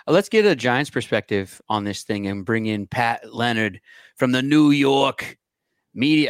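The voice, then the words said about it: Put-on New York accent. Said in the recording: “It's a good accent, but it reminds me of gangs in New York.”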